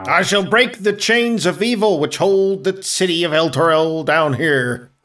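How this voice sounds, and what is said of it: Put-on character accent. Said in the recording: “Glad to see you still have your accent.”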